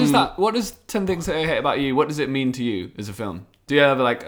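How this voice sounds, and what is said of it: Usual voice. Nothing is said of it.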